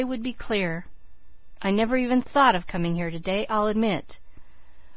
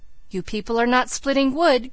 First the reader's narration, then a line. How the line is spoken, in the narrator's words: cried Elnora